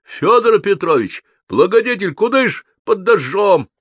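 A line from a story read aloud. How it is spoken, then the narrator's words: Smiling shout. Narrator (Russian): он расплылся в улыбке, крикнул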